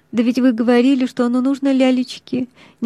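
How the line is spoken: Hesitant. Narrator (Russian): нерешительным голосом заметила Маша

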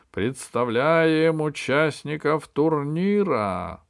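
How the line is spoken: Piercing shout of head judge. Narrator (Russian): закричал главный судья таким пронзительным голосом, что его, наверное, было слышно в открытом космосе

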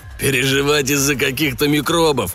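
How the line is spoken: Guffawing. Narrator (Russian): хохотал Тим

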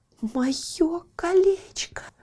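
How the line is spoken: Trembling voice. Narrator (Russian): проговорила дрожащим голосом

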